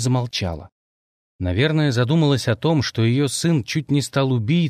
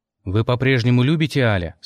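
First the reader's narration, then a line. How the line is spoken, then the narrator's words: Plain. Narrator (Russian): спросил я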